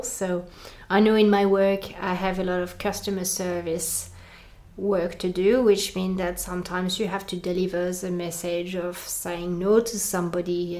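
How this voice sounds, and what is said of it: French accent. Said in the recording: “people don't like my accent ... people aren't just going to enjoy hearing me as a French person”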